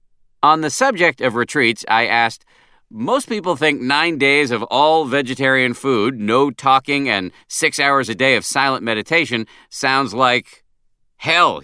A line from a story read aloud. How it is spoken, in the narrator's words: he said, interrupting me with an utterly non-defensive chuckle